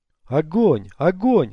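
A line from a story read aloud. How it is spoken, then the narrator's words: Yelled. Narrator (Russian): завопил Костолом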